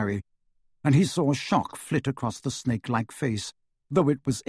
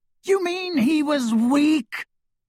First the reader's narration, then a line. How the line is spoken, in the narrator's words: screamed Voldemort